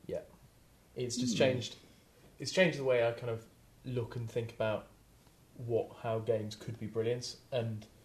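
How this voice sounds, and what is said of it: Deep throaty Scottish accent. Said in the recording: “It's my deep throaty Scottish accent, isn't it?”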